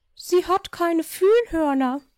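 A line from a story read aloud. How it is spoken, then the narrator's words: Called out. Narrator (German): rief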